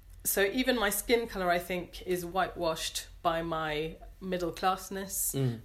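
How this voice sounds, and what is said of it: English accent. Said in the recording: “I sound very English ... here I sound more British”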